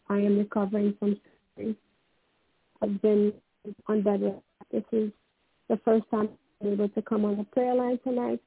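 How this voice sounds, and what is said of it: Hoarse voice. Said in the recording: “This is a little bit hoarse.”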